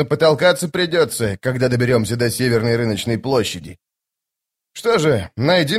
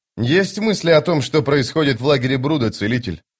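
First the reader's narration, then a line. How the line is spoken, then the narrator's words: Plain. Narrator (Russian): спросил капитан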